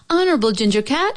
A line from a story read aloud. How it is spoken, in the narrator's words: called out